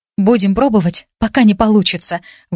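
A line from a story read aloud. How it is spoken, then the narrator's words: Breathed out. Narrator (Russian): выдохнула я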